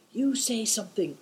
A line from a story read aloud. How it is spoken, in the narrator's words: whispered Big Tiger